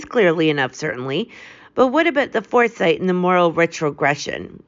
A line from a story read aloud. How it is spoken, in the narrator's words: Sherlock Holmes laughed